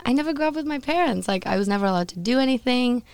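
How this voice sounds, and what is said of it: Foreign accent. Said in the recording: “Is that where your accent comes from?”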